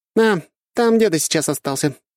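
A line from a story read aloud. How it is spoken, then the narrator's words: Slightly offended. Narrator (Russian): слегка обиженно махнула рукой Ольга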